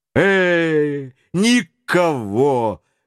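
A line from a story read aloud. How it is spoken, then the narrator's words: Exclamation. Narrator (Russian): воскликнул сержант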